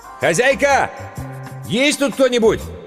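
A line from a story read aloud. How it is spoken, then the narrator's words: Shouting. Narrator (Russian): Иван ... прокричал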